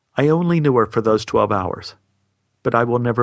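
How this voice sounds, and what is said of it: Usual voice. Nothing is said of it.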